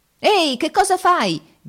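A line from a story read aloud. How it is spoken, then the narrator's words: Shouting. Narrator (Italian): gridate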